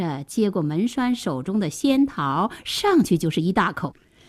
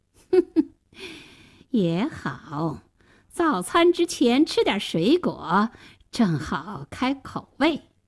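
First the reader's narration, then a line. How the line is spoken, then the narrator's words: Cold sneer. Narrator (Chinese): 大灰狼冷笑了一声说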